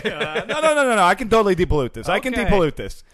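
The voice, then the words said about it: Contractor character with New York accent. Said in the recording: “he has like a New York accent”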